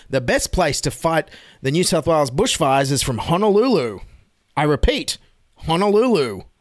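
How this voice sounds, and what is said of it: Scott Morrison impression. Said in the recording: “my Scott Morrison impression.”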